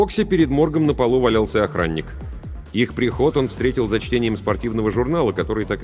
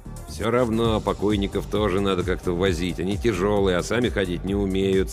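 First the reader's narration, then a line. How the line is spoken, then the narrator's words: Grumpy muttering. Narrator (Russian): сварливо бормотал Йонс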